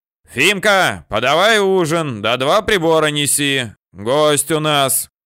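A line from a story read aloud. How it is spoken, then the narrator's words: Fat man's loud shout. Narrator (Russian): толстяк громко крикнул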